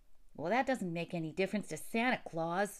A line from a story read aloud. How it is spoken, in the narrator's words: scoffed Jimmy